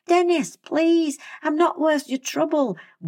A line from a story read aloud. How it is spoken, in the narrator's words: Will pleaded